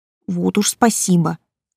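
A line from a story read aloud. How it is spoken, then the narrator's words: Grumbling. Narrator (Russian): проворчала я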